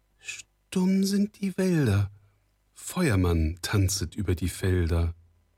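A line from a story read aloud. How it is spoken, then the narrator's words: Unsteady voice. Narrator (German): Frau Stine mit unsicherer Stimme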